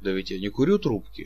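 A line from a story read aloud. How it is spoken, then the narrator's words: Dry. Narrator (Russian): сказал сухо Чичиков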